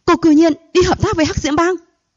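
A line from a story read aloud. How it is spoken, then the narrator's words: Furious shout. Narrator (Vietnamese): Sắc mặt của Vũ Văn Lạc đã sớm trở lên rất khủng bố, giận dữ hét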